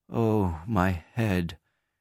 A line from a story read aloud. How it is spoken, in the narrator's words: She also was suffering from a headache, and when he entered her room she moaned